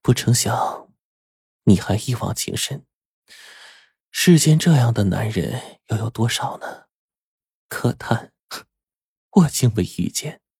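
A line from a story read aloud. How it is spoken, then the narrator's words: Sighing. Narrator (Chinese): 他直叹道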